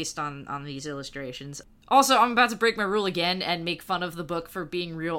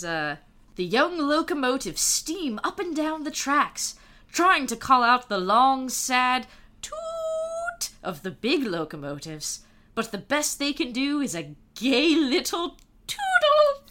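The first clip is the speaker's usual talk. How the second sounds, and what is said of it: Put-on British accent. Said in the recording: “you have to read it in a British accent, like in the Thomas the Tank Engine TV show where all the trains are British”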